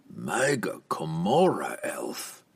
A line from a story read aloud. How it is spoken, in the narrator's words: the Surfneblin remarked with a chuckle